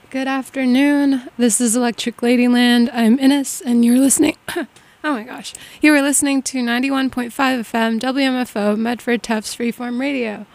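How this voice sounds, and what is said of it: Raspy voice. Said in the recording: “I'm a little sick today, so my voice is a little raspy.”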